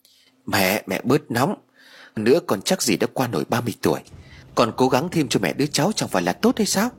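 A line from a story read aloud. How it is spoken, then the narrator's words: Stammering. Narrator (Vietnamese): Phú lắp bắp rồi nói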